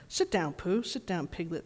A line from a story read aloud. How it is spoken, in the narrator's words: said Owl kindly